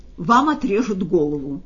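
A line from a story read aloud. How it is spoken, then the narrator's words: Loud joyful announcement. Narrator (Russian): громко и радостно объявил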